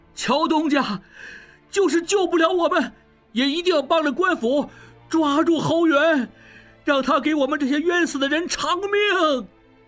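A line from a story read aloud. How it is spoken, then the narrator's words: Repeated shouting. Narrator (Chinese): 广圣元二掌柜跟着队伍走，仍在频频回头喊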